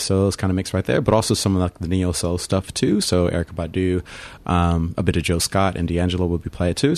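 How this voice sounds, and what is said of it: Slight American accent. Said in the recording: “do I detect a bit of an accent? ... Originally from the States ... I can hear that little hard E in there”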